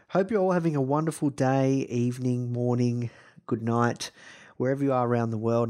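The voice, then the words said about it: Slightly croaky voice. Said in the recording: “My voice is a little croaky.”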